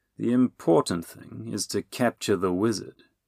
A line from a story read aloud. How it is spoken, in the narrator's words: Catmu suggested in his oiliest voice